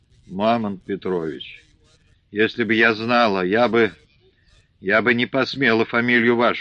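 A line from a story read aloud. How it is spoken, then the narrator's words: Muttering. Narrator (Russian): бормочет Дуня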